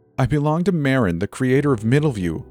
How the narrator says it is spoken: the girl cried

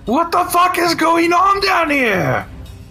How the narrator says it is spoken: a guard shouting

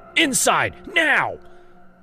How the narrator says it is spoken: I screamed again

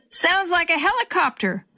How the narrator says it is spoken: Grandpa yelled back

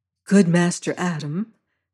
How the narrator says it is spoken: says she gently

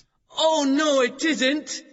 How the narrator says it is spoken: shouted Matt

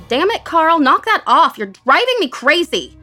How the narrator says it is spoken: I shouted

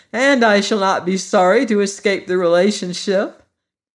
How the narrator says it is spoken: answered Tip, laughing in spite of his anxiety

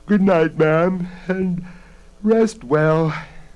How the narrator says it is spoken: Bella said sleepily from across the room

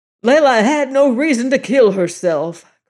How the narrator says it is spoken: cried O'Malley

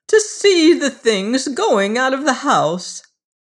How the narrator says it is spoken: wailed the other

